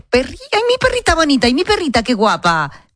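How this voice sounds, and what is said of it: Baby talk voice. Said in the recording (Spanish): “le hablas con voz de bebé ... les hablamos como si directamente fueran bebés”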